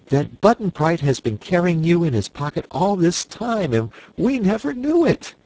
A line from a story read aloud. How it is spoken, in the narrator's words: cried Dorothy